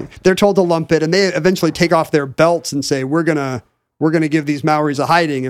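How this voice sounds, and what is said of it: Usual voice. Nothing is said of it.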